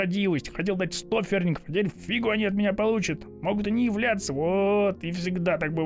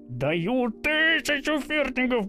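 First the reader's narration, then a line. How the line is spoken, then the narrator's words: Silent mental scream. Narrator (Russian): мысленно завопил он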